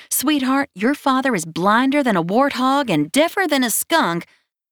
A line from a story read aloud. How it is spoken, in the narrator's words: behind his back, she begged